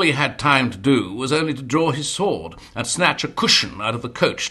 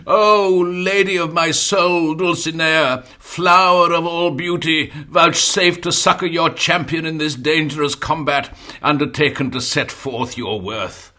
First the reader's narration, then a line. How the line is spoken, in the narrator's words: The knight, feeling the weight of that unmeasurable blow, cried out aloud